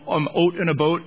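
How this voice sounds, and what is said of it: Mock Canadian accent. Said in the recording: “Canada ... I have friends who have that accent”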